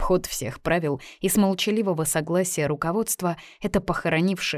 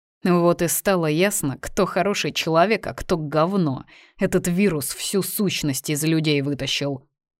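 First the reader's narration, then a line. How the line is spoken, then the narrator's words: Grumbling while chewing. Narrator (Russian): ворчала санитарка, осторожно откусывая левой, пока еще зубастой частью своего рта от обломка шоколадной плитки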